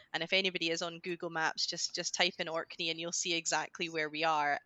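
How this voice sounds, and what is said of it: Scottish accent. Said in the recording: “that's where the Scottish accent comes from, because I've just grown up in Scotland all my life”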